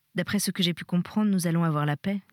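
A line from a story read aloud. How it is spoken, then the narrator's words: Plain. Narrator (French): dit-il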